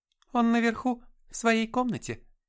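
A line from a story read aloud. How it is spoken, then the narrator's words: Cheerful. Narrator (Russian): весело сообщила она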